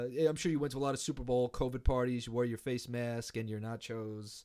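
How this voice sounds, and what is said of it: Usual voice. Nothing is said of it.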